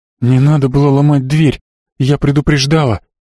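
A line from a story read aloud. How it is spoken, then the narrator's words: Hoarse wheeze. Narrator (Russian): просипела Марго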